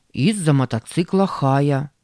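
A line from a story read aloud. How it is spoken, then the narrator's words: Plain. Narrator (Russian): ответил Сэм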